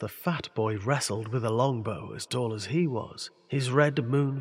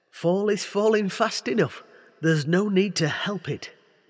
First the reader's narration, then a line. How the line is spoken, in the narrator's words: he sighed